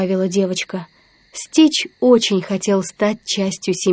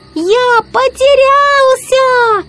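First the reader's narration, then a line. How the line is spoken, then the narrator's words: Shouting with all strength. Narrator (Russian): изо всех сил закричал он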